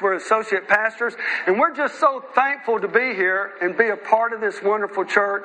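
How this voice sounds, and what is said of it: American accent. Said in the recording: “my accent's a little different ... I'm probably not from the UK ... I'm a missionary from the United States”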